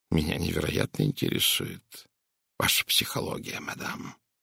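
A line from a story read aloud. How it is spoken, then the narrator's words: Quiet. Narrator (Russian): тихо произнес он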